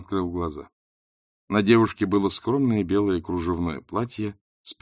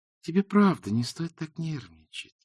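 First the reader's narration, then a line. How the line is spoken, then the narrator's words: Sweet purring. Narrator (Russian): сладким голосом промурлыкала она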